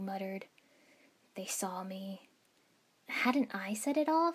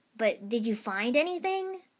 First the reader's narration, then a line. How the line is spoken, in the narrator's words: Naruto asked eagerly